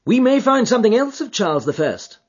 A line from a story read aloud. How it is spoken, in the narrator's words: I cried, as the probable meaning of the first two questions of the ritual broke suddenly upon me